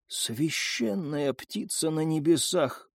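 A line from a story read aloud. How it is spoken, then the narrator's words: Whisper. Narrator (Russian): прошептала Юми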